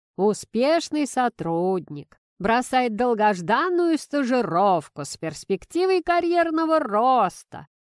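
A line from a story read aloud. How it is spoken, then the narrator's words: Sing-song smirking purr. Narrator (Russian): нараспев поделился мужчина и, усмехнувшись, проурчал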